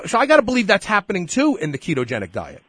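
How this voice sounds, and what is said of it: Brooklyn accent. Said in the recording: “From Brooklyn. ... I can tell from the accent”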